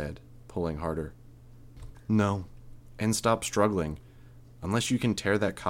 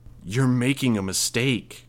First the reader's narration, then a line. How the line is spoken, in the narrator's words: I growled